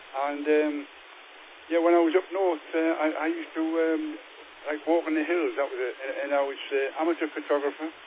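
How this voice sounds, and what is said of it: Northern English Geordie accent. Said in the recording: “you might recognise a different accent to some people over England. Yeah, I'm a northern lad, a Geordie boy.”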